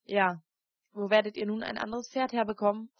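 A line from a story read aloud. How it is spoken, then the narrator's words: Plain. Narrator (German): fragte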